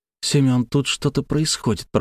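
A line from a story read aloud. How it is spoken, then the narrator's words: Trembling mutter. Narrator (Russian): пробормотала Славия, ее голос дрогнул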